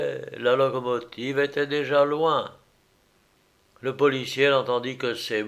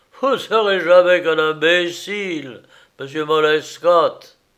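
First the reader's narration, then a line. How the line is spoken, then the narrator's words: Shouted. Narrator (French): John Stubbins cria au chef de la sûreté, médusé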